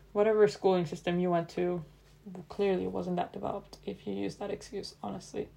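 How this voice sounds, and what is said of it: Strong accent speaking English. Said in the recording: “my accent gets really strong when I speak English”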